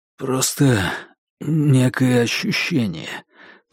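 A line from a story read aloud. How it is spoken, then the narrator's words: Hoarse. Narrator (Russian): произнес он хрипло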